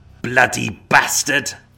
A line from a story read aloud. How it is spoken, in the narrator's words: feeling his rage rise once again, Varna venomously spat the words